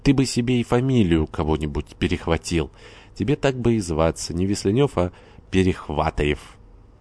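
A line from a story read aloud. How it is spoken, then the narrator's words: Laughing. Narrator (Russian): Горданов снова засмеялся и проговорил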